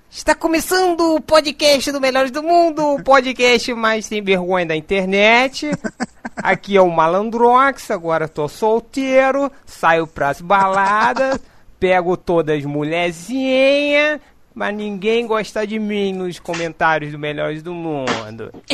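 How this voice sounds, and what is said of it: Impression of Malandrox presenting. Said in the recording (Portuguese): “vou começar imitando o Malandrox, como se ele estivesse apresentando”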